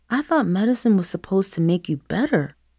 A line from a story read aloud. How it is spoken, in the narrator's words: Christian muttered